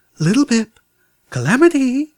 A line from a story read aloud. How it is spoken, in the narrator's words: Velvet whimpered